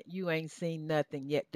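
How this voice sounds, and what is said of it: Southern American accent. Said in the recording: “in my southern accent”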